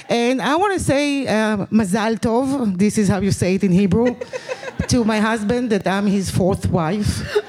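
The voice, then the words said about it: Israeli accent. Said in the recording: “as you can hear from my accent, I'm not from here... Yeah, it's the Israeli accent.”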